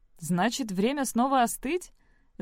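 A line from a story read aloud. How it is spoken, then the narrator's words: Laughing. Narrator (Russian): засмеялся Хантер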